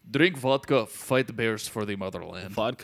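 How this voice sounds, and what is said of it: Bad put-on Russian accent. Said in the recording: “pardon my uh, terrible Russian accent”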